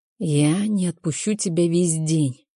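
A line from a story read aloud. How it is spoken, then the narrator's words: Hoarse whisper. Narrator (Russian): хрипло шепчет Джейсон мне на ухо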